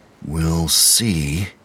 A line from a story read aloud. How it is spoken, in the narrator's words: he muttered because he was counting revolutions